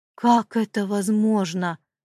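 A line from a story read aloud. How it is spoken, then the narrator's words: Exclaimed. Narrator (Russian): воскликнул сержант Хедман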